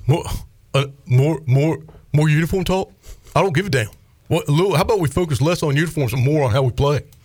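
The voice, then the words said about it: Imitates another person's voice. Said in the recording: “my Mully impersonation ... I like your impression”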